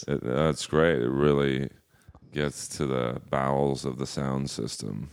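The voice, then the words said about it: Very deep male voice. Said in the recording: “did your voice change where it was that deep? ... I've always had a deep voice.”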